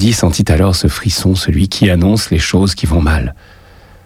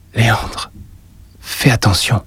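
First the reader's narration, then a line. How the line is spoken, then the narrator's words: Murmured. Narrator (French): murmura-t-elle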